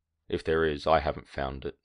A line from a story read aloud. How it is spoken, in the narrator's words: Runcher said sadly